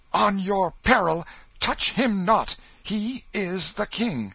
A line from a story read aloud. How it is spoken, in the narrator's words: the mock king cried out